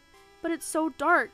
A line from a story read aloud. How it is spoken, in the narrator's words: said, his voice trembling